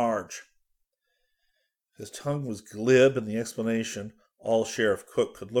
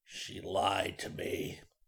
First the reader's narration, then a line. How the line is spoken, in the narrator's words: he growled softly